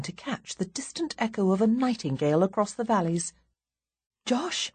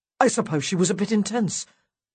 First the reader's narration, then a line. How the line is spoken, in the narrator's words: Josh blurts out